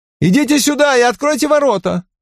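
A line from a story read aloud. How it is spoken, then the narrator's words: Shouting girl. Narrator (Russian): девушка в красном, которая крикнула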